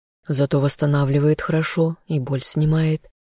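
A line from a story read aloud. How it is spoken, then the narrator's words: Calm male reply. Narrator (Russian): спокойно ответил мужчина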